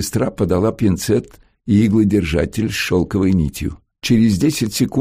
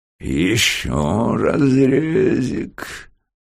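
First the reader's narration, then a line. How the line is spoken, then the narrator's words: Purring. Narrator (Russian): промурлыкал профессор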